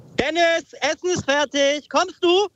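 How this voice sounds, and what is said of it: Mother's call, shouted, rising pitch. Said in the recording (German): “dieses kommst du am Ende. Mit der Stimme auch so hochgehen ... So Treppen hochschreien.”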